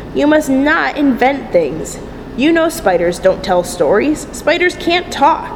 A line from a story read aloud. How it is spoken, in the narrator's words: said her mother sternly